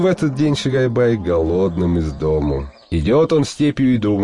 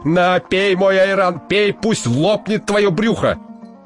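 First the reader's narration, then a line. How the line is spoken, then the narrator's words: Exasperated shout. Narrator (Russian): Тот терпел и не выдержал, закричал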